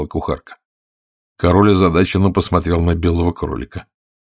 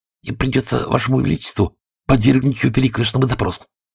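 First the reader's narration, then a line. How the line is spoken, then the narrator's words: Whispering rabbit. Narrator (Russian): прошептал кролик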